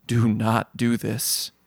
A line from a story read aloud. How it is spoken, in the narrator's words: says, almost a whisper